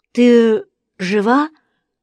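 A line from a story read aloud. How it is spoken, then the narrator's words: Hoarse voice. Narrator (Russian): голос звучал хрипло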